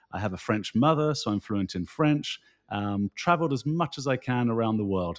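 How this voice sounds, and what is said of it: British accent. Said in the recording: “you can tell by my uh, accent that I grew up in the United Kingdom.”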